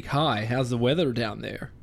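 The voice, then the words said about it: Poor put-on American accent. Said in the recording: “Is that your American accent? ... Yeah, it's ... shit. ... Would not quit your day.”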